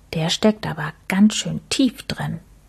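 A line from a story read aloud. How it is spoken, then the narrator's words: Quiet. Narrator (German): sagte Max leise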